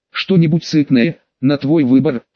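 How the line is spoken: Wry snort. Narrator (Russian): хмыкнул я

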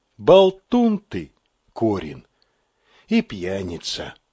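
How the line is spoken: Sighing. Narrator (Russian): вздохнула Вера

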